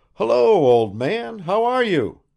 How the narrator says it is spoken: exclaimed Bazarov

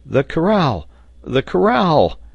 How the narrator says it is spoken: exclaimed Ayrton

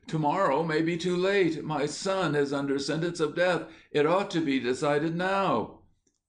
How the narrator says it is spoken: The old man, in an agony of apprehension, actually cried out

